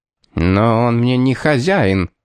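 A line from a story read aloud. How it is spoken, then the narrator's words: Through gritted teeth. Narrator (Russian): процедил сквозь зубы Телман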